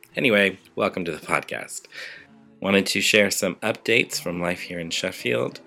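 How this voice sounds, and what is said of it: Slightly raspy voice. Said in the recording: “you might be able to tell from my voice that I'm a little bit raspy ... my annual beginnings of chest infection”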